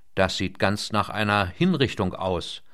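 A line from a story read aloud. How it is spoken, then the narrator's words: Dry. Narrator (German): meinte trocken der offenbar mit solchen Praktiken durchaus vertraute Hai Wong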